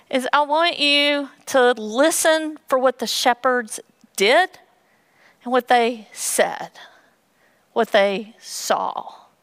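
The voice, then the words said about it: Western North Carolina accent. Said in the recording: “my eloquent Western North Carolina accent”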